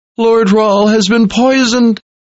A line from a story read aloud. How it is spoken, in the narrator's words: he blurted out as he wept